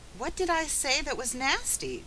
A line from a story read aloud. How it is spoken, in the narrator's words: cried Felicity